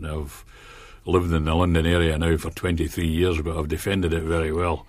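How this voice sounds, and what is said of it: Scottish Ayrshire accent. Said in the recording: “my Ayrshire accent. It is an Ayrshire accent.”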